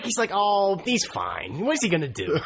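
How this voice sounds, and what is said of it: Canadian accent sounding like Joe Pesci. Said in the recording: “Why did you become Joe Pesci? You became Joe Pesci there. ... I thought you were trying to do Canadian, and like your Canadian sounded like Joe Pesci, which is very, very odd.”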